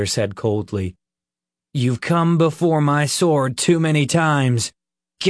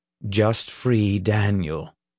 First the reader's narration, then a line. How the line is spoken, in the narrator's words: the captain said calmly